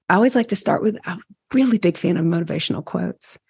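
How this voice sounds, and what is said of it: Teary, congested voice. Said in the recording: “I start to get emotional, I tear up a little bit. So I got a little snot sandwich going on here.”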